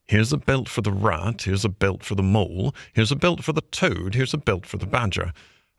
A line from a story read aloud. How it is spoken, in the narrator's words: The anxious and laborious Rat muttering